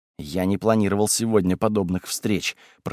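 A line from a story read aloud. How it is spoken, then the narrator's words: Hissed. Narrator (Russian): прошипел Люций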